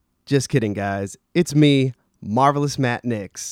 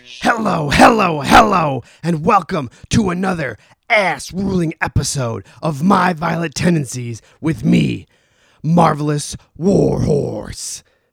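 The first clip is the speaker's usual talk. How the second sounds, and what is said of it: Poor impersonation of another person's voice. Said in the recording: “doing a very poor impersonation of Warhorse”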